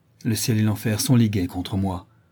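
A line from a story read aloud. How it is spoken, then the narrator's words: Exclaimed. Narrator (French): s'écria-t-il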